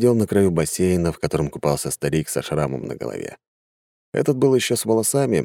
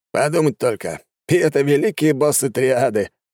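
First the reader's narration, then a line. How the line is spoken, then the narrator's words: Young man laughing. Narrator (Russian): рассмеялся самый молодой среди них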